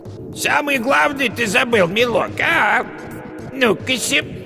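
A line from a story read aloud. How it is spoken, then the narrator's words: Fake thin voice. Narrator (Russian): яга позвала фальшиво тонким голосом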